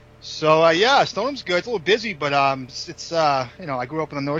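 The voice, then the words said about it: Thick Boston accent. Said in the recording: “the best Boston accent that we've ever had on the podcast ... perfect ... That's a thick accent, bro.”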